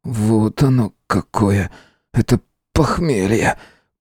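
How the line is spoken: Whisper. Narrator (Russian): прошептал

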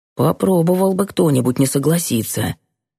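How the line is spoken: Whisper in ear. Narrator (Russian): шепнул мне на ухо Юрка

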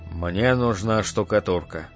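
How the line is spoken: Calm. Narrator (Russian): сказал он спокойно

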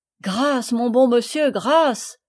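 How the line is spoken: Trembling boy exclaiming. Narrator (French): s'écria le garçon, tremblant

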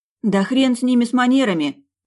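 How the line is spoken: Exclamation. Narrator (Russian): воскликнула Алена

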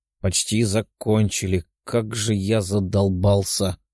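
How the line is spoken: Grumbling young man above. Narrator (Russian): ворчал парень наверху

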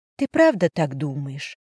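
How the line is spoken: Quiet question. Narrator (Russian): тихо спросила

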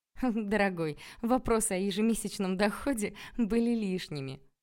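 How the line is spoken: Ringing laughter. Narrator (Russian): звонко рассмеялась мама

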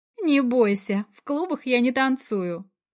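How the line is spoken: Snide reminder. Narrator (Russian): ехидно напоминает

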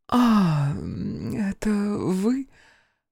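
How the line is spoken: Sleepy. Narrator (Russian): проговорила она сонно

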